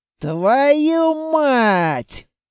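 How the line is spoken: Howling cry. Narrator (Russian): прямо-таки взвыл он

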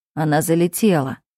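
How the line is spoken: Brother calmly explaining. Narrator (Russian): спокойно объясняет брат

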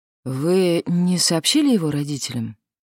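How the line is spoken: Sighing. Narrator (Russian): Кавалье вздохнула

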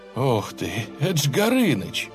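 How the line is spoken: Agitated mutter. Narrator (Russian): взволнованно пробормотал Леха

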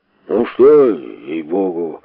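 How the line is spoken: Displeased grumbling. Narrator (Russian): забурчал недовольно Шариков

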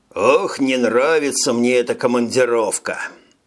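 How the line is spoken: Sighing admission. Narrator (Russian): Вздохнув, признался штурман

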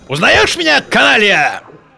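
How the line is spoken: Menacing question. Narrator (Russian): грозным голосом спросил он

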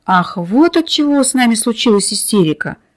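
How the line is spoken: Relieved sigh. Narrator (Russian): Охотник облегченно вздохнул

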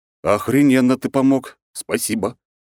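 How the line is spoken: Sarcastic snort. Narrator (Russian): хмыкнул я

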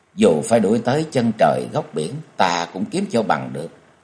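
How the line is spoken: Tearful determined mutter. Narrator (Vietnamese): lau khô nước mắt rồi lẩm bẩm

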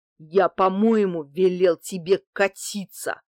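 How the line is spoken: Growling. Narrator (Russian): прорычал он

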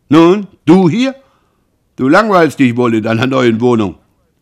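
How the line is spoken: Calling out. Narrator (German): Roland rief, als er den jungen Mann sah

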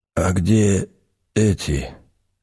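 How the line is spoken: Hoarse wheeze. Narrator (Russian): просипел мужчина

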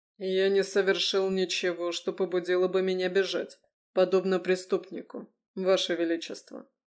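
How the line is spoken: Calm reply. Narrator (Russian): спокойно отозвался Леконт

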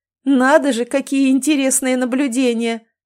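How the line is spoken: Laughing. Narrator (Russian): рассмеялся он

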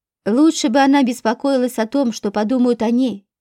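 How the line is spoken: Village elder's scoffing grunt. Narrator (Russian): хмыкнул староста

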